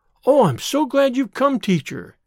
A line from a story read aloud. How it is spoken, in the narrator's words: he said eagerly